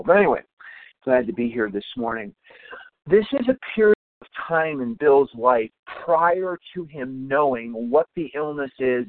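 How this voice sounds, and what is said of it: Tired, rough-sounding voice. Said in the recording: “I'm exhausted. ... my voice is terrible.”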